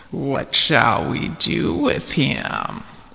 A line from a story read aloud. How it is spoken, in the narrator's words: It growled to the others